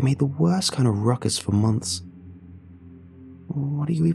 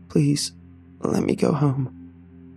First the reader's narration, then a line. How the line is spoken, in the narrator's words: I croaked, hot tears starting to fall